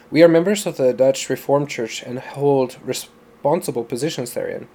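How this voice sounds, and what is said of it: Inconsistent put-on foreign accent. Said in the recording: “My accent. I'm slipping from Indian to Mexican to... I don't even know what that was. Full-on British.”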